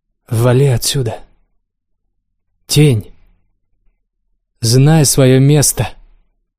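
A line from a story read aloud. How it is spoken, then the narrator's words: Snarling young woman. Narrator (Russian): Девица зарычала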